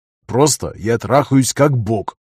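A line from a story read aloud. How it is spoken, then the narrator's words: Plain. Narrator (Russian): ответил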